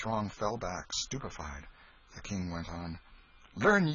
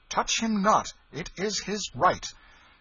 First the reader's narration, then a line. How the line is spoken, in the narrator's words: cried out